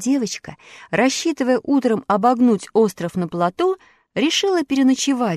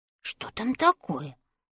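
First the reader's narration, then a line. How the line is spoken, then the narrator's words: Muttering. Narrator (Russian): бормотал он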